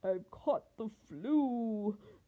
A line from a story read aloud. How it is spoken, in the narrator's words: the lion roared